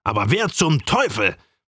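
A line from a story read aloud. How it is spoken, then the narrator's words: Even more vehement blustering. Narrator (German): polterte noch heftiger raus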